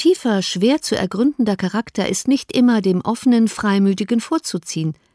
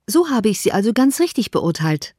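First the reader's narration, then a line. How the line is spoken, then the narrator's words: Plain. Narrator (German): sagte Elizabeth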